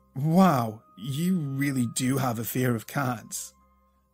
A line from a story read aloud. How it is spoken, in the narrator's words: Luke asked, slurring his speech